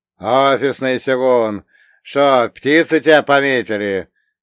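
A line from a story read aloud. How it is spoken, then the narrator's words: Laughing. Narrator (Russian): засмеялся Кубаяси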